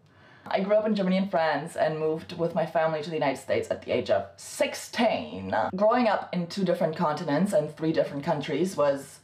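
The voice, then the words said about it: Half French accent in English. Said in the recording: “I have a fat accent... The accent is half French”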